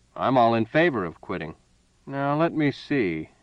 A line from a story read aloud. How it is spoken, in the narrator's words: purred